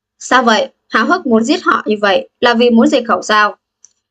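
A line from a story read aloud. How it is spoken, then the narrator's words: Cold voice. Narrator (Vietnamese): Một giọng nói lạnh lùng phát ra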